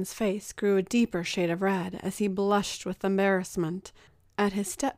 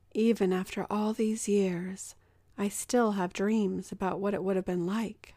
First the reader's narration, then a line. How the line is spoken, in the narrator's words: He replied quietly